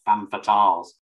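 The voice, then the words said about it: Exaggerated regional British accent. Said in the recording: “What would be the worst British accent to say femme fatale in? Our old accent, but from where we're all from, would be terrible ... That sounds more like Sean Bean”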